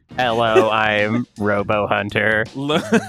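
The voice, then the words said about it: Mock robotic voice-changer voice. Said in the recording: “You just did your own voice changer? ... Yes, I'm using my own.”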